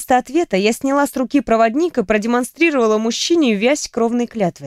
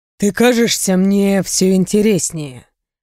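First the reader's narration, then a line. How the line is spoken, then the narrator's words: Purring. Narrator (Russian): буквально промурлыкал Рэй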